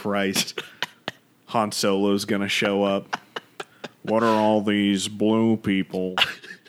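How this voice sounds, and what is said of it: Imitates Han Solo's voice. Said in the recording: “That's my Han Solo impression. ... That's pretty good.”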